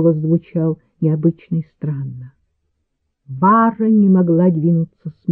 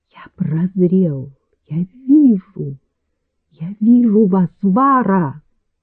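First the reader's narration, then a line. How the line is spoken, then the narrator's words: Exclaimed. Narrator (Russian): граф воскликнул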